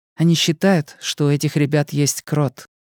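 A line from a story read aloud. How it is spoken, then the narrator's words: Quiet. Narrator (Russian): тихо сказала Мия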